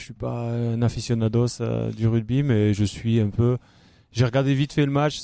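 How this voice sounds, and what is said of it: Regional French accent. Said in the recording (French): “Mais il y a l'accent. ... Ouais, déjà, il y a l'accent.”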